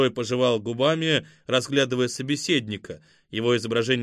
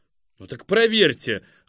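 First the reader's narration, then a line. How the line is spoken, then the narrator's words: Irritated, curt. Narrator (Russian): раздраженно бросил Збанацкий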